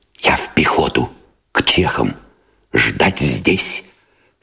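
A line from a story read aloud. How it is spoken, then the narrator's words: Whisper. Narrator (Russian): сказал он шепотом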